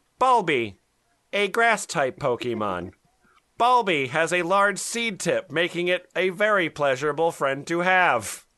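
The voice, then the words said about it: Mock Pokédex narrator voice. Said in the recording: “in your best Pokesex voice. ... So this is going to be my best Pokesex voice.”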